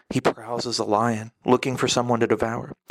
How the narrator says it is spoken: whispered

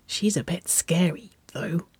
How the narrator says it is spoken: she whispered

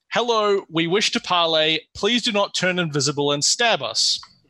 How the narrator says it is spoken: Alakan has just called out

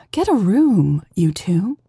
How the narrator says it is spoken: the woman sighed

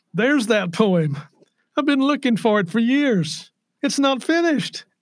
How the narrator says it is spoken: he exclaimed

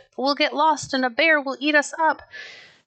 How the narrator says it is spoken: she sobbed

